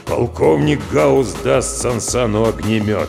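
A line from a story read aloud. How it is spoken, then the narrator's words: Deep gloomy voice. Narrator (Russian): пробасил Гаус хмуро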